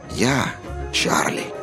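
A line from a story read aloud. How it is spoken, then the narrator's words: Hoarse small voice. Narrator (Russian): отвечал хриплый голосок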